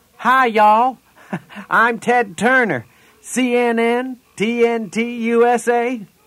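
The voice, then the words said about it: Put-on Southern Georgian accent. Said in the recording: “Don't forget your accent ... You sound like Jimmy Carter ... Georgian”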